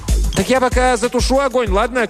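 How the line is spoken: Shouted. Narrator (Russian): крикнул Цыпинг

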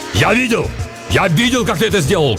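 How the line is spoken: Shouting. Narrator (Russian): кричал он

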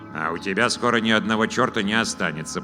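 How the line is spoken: Grumbling. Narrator (Russian): проворчал Вур

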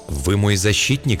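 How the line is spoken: Timid question. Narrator (Russian): спросил он робко

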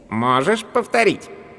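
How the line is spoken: Mocking question. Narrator (Russian): поинтересовался пришелец насмешливо

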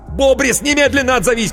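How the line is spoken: Shouting into phone. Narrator (Russian): кричал в трубку Коровин

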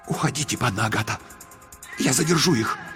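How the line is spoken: Brave whisper. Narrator (Russian): Кразельчикюс мужественным шепотом сказал

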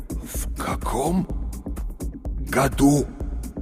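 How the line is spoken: Forced out through clenched jaws. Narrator (Russian): выдавил он с усилием, сводя челюсти

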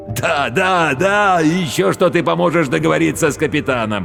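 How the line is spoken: Laughing. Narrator (Russian): рассмеялся контрабандист

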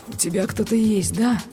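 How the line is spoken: Muffled question. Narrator (Russian): глухо спросил он

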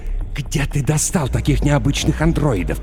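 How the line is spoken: Hissed. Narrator (Russian): прошипел Дэн

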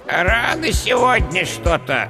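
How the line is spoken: Displeased creaky voice. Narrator (Russian): недовольно проскрипел скелет

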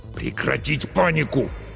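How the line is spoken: Hissed again. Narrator (Russian): снова прошипел капитан

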